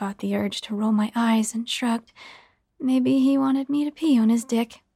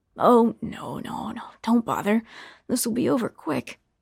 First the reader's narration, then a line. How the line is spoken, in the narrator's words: chuckled